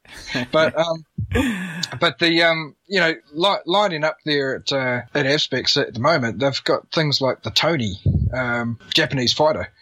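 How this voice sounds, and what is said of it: Sick, congested-sounding voice. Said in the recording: “I've got a cold, by the way, so that's why my voice is on.”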